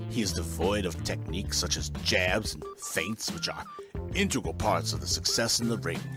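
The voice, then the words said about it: Wavering British-Australian-American accent. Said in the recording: “What accent is this? ... sometimes it's British, sometimes it's Australian, sometimes it's just American ... Brit-Australian accent”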